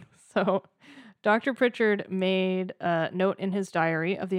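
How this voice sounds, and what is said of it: Usual voice. Nothing is said of it.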